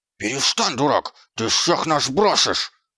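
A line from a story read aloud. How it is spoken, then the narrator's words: Growl. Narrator (Russian): прорычал Господ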